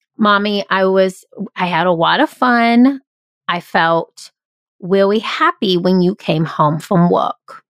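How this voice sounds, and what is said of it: Impression of a toddler. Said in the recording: “I'll do a Jackson impression ... He is 2.5.”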